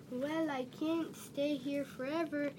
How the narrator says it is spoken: he said

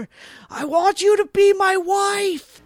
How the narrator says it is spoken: Jimmy yelling at her

